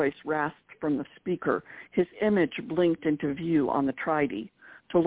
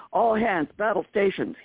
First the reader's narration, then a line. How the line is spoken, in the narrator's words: yelled